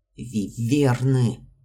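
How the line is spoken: Hissed. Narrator (Russian): прошипел Морган Кайрхолл

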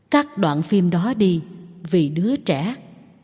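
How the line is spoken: Gentle voice. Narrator (Vietnamese): Phan Gia La nói với giọng dịu dàng

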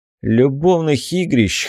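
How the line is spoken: Snort. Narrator (Russian): хмыкнул

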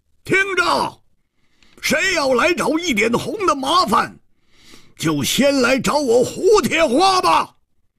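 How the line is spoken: Wild roaring. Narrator (Chinese): 狂吼着说

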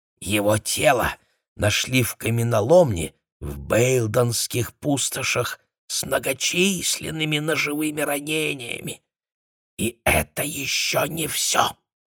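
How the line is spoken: Whispered addition. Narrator (Russian): шепотом добавила

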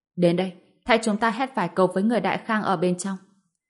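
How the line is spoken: Shouting. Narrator (Vietnamese): phó tướng hét lên

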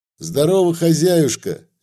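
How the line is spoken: Cheerful shout. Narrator (Russian): весело крикнул

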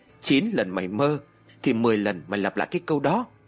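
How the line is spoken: Girl bursting into laughter. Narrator (Vietnamese): Một cô gái cười phá lên

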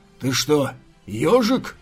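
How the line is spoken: Growl. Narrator (Russian): прорычал Джао Вуджи

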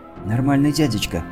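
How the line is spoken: Whispered into ear. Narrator (Russian): шепнула мне на ухо Лила

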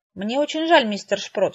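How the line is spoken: Sighing. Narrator (Russian): вздохнула я

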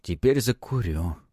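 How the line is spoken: Crushed voice. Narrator (Russian): убитым голосом произнес Антон

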